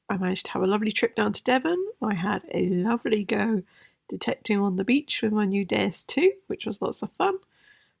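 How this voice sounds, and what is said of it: Sick, unwell-sounding voice. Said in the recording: “hear it in my voice, but I'm not very well ... all I got was this lousy COVID ... it's hit me like a ton of bricks ... I feel terrible”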